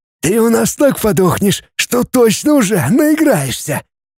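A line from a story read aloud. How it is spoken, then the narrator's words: Hateful hoarse wheeze. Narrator (Russian): просипел с ненавистью второй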